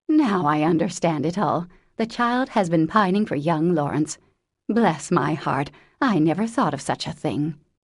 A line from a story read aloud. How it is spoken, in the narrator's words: exclaimed to herself